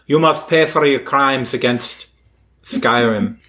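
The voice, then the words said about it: Put-on Nordic accent drifting Irish. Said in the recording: “That was a decent Nord accent. It kind of went Irish a little bit there in the middle, but I think we pulled it together at the end”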